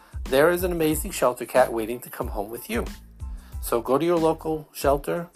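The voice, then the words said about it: Brooklyn Long Island accent. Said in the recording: “whatever my accent is, Brooklyn, Long Island, a formerly Jewish accent”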